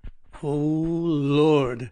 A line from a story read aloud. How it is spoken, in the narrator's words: I groaned